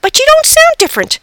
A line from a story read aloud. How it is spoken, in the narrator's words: I frantically squeaked